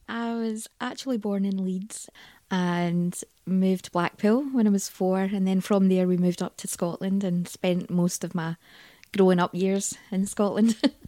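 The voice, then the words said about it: Scottish accent. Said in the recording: “you've got a Scottish accent”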